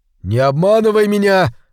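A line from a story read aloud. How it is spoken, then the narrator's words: Shouting. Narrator (Russian): закричал он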